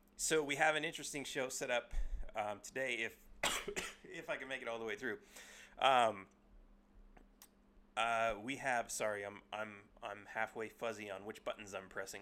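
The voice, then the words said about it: Voice sounds sick with a cold. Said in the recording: “Sorry for my voice. ... I have a cold or a flu or something”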